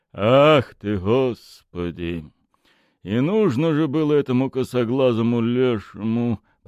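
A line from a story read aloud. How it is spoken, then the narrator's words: Low grumbling mutter. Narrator (Russian): проворчал он вполголоса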